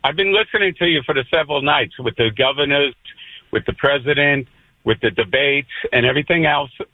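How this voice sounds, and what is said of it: New York accent. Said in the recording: “you're a transplant from New York. I can hear it in your voice.”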